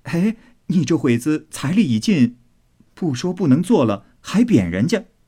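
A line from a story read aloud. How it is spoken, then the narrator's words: Laughing. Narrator (Chinese): 宝玉笑道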